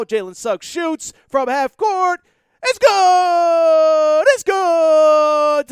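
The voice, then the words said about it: Imitates a sportscaster's excited call. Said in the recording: “Did I do my Jim Nance impression well there?”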